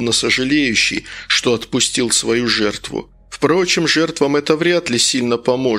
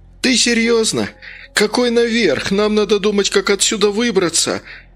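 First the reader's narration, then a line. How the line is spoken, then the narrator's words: Desperate squeal. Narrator (Russian): отчаянно завизжал Лаки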